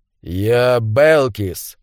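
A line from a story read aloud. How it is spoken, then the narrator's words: Growl. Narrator (Russian): прорычал он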